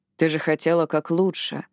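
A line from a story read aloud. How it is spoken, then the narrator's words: Soft. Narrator (Russian): мягко сказал Джек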